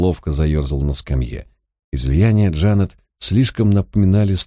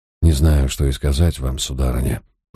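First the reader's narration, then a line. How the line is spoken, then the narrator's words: Mumbled. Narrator (Russian): пробормотал я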